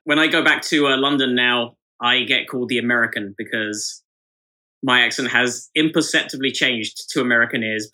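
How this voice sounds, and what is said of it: British accent with American twang. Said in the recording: “you also have a Brit accent here ... I can definitely hear a twang in there. I think you're somewhere in the middle of the Atlantic”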